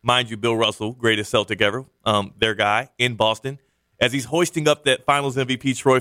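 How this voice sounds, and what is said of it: Usual voice. Nothing is said of it.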